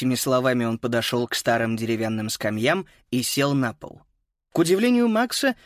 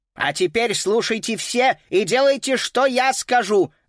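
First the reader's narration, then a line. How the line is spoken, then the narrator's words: Very loud echoing declaration. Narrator (Russian): заявил так громко, что эхо разнеслось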